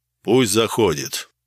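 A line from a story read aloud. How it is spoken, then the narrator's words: Deep bass voice. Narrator (Russian): пробасил он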